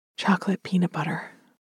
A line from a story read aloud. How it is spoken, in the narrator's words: Chef said, a little breathlessly